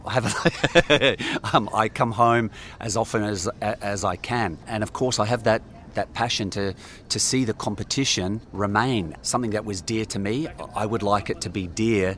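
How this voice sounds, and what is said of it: Australian accent. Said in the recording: “I'm still Australian. Can hear from my accent.”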